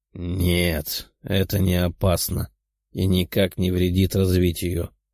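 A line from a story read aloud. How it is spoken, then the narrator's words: Calm. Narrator (Russian): спокойно ответил демон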